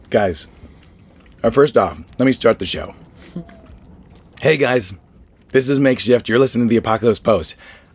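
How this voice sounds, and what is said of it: Hoarse, strained voice. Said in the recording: “I lost my voice this weekend... I finally have the Dave Dufour, Baron, Mickey Bang Bang, Tim Cottage post-Wasteland voice”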